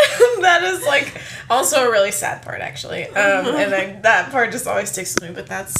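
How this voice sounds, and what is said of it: Usual voice. Nothing is said of it.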